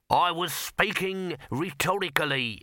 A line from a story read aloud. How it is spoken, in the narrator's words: snapped Throat